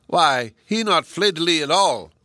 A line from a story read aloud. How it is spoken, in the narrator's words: Ah Si, who exclaimed in delight to his friends